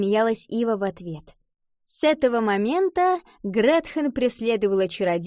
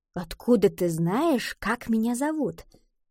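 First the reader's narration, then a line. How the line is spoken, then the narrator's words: Conspiratorial whisper. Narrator (Russian): Гретхен заговорщицки прошептала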